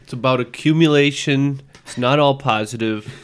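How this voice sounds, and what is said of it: Donald Trump impression. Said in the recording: “Donald Trump ... that quote in impression form”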